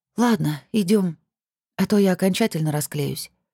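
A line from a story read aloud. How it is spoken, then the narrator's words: Slightly hoarse voice. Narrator (Russian): слегка сиплым голосом сказала Зоя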